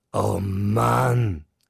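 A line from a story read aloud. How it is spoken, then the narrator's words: Son exclaiming, loud groan. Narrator (German): rief sein Sohn aus und stöhnte laut auf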